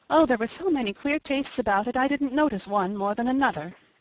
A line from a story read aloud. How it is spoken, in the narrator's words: answered Felicity wearily